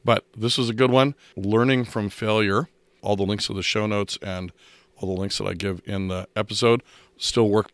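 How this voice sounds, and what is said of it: Strained, unwell-sounding voice. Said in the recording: “as you might be able to tell from my voice, I haven't actually had a very good voice for the past 2 weeks, and it's still not recovered”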